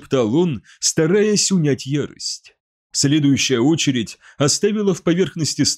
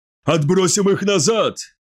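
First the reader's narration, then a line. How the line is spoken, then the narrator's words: Shouting. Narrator (Russian): закричал Фаэль Тарон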